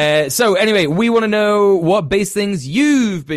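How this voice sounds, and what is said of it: Usual voice. Nothing is said of it.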